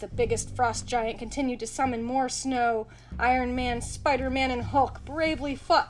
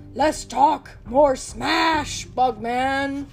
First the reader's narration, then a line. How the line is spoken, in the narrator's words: Hulk growled